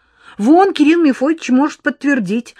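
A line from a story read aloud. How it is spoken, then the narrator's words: Joyful. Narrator (Russian): радостно ответила Эл Ирискина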